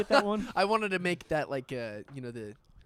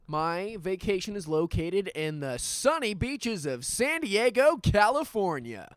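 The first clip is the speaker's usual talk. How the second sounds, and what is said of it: Game show announcer voice. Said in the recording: “announcer voice”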